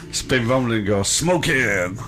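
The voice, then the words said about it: Bad impression of another person's voice. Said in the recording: “worst Jim Carrey impression ever ... No, it was pretty bad.”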